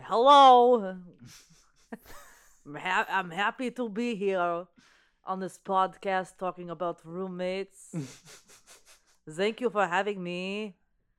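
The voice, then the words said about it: Vague put-on foreign accent. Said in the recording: “Is that a Polish accent? ... I didn't know if that was like Brazil or like Norwegian ... I've been working on my accents.”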